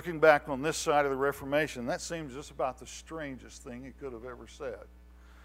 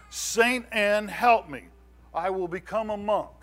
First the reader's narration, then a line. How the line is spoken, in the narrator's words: in terror, he cried out